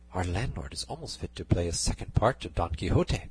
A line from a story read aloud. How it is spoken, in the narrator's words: Dorothea said in a whisper to Cardenio